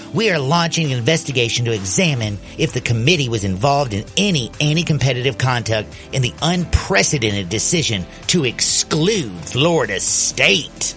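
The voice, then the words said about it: Impression of Ashley Moody. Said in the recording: “I like your impression. ... I do a good Ashley Moody.”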